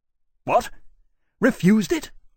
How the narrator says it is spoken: Lawrence cried in great dismay

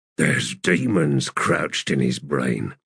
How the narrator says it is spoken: Cuttle said under his breath

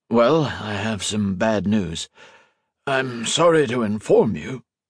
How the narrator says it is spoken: he took in a wheezy lungful of air

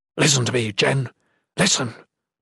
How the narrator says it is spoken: Dacen whispered fiercely

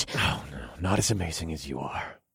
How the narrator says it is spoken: I murmured

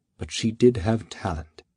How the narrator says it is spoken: Memor whispered

